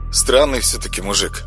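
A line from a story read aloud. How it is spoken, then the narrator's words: Plain. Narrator (Russian): сказал он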